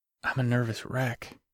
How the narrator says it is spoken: Grant said quietly

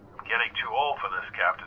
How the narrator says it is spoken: whispered Zach

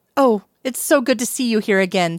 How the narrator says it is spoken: she exclaimed

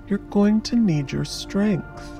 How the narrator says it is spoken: he says soothingly

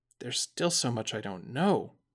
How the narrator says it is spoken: Zack said with a heavy sigh

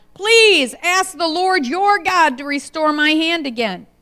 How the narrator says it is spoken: the king cried out

